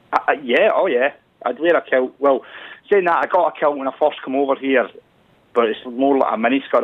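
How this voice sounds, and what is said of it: Scottish accent. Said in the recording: “I feel like I've had crash course in Scottish ... I'm losing my accent ... she's always saying I can't hear the Scottish accent”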